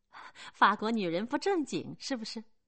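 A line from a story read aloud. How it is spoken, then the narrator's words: Laughing. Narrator (Chinese): 克里斯多夫笑了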